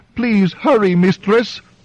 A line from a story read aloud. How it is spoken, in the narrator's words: wailed the whelp